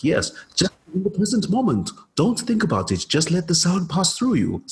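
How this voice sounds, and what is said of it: Imitates another person's voice, poorly. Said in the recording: “my very bad Eckhart Tolle impression”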